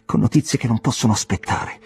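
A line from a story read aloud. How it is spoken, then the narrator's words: Exclamation at the door. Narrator (Italian): esclamò alla porta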